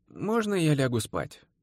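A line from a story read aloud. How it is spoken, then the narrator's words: Very sleepy voice. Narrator (Russian): И совсем сонным голосом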